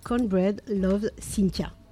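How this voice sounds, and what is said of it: Convincing put-on English accent. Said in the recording (French): “Meilleur accent. Vraiment, là, je suis bluffé”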